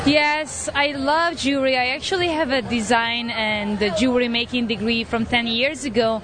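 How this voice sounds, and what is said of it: Hungarian accent. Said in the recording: “That Hungarian accent may get the best of you.”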